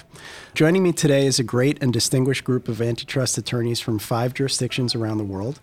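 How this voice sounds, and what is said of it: Scratchy voice from a cold. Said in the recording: “I'll apologize in advance for my scratchy voice. ... I have a bit of a cold,”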